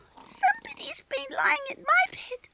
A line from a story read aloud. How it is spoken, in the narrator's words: squeaked Baby Bear joyfully